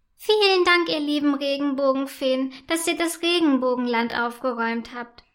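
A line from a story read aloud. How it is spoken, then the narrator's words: Called out. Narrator (German): ruft Prinzessin Buntalina ihnen zu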